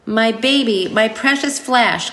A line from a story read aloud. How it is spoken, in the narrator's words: cried Harry Spiders